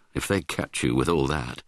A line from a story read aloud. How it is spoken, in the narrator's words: Hal murmured